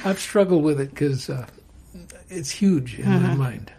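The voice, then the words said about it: Choked-up, emotional voice. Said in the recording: “getting a little choked up”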